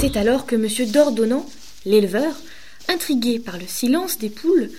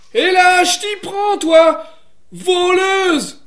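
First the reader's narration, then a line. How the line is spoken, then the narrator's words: Shouted accusingly. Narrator (French): lui cria-t-il, car il pensait qu'elle était venue picorer le grain des poules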